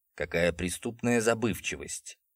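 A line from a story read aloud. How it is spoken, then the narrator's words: Quiet mutter. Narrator (Russian): тихо пробормотал Джулиус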